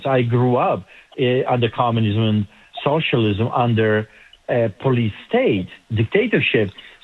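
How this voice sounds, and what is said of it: Eastern European accent. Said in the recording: “As you can tell by my accent, I grew up behind the Iron Curtain”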